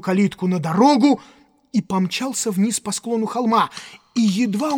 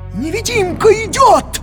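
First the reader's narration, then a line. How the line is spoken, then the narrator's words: Yell. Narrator (Russian): завопил Кэмп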